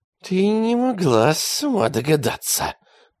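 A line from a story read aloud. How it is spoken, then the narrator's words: Hissed. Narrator (Russian): прошипел он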